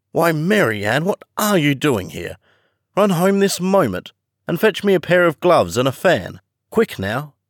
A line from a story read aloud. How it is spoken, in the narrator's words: the rabbit ... called out to her in an angry tone